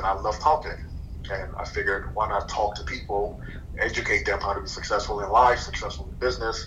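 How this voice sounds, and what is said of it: Slight foreign accent. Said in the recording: “I still have a slight accent. You can hear it, listen closely.”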